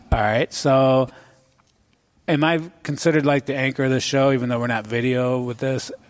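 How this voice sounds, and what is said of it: Slightly hoarse voice. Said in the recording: “I'm getting a little hoarse today.”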